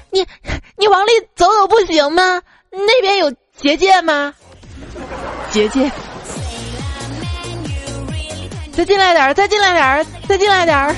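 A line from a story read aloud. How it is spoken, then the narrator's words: Girl's tearful shout. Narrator (Chinese): 一女孩略带哭腔的就喊道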